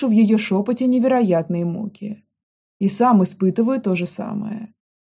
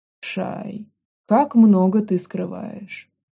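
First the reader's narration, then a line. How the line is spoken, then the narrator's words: Quiet question. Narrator (Russian): тихо спрашивая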